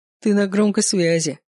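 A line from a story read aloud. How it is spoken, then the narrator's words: Chuckling. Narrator (Russian): хохотнул Макс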